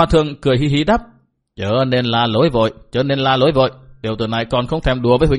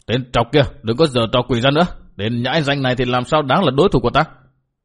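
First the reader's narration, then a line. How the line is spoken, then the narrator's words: Indignant shout. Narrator (Vietnamese): các đà tố mặt đầy vẻ phẫn nộ, quát bảo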